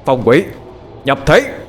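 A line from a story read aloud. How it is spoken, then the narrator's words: Shouted. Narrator (Vietnamese): Sau tiếng quát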